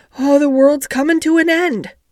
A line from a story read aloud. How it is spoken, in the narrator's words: gasped Martha